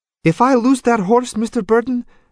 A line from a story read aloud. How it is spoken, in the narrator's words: Antonia exclaimed